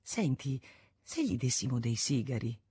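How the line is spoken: Quiet suggestion. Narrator (Italian): suggerì a bassa voce Isonet

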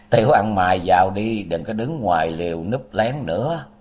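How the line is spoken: Laughing old man. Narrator (Vietnamese): Bên trong vang lên một tràng cười lớn, lão đạo nói

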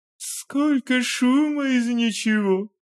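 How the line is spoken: Sighing. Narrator (Russian): вздохнул

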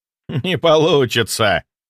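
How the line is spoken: Giggling. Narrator (Russian): хихикнул Морозов

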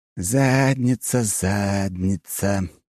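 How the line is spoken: Nervous sing-song. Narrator (Russian): нараспев и очень нервно повторил Фирсов

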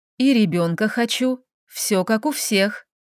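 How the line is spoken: Smiling. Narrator (Russian): улыбнулась

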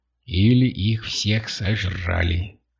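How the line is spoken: Grim whisper. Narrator (Russian): мрачно прошептала Катя

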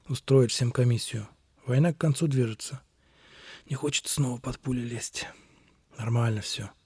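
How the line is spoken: Muttered. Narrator (Russian): пробормотал

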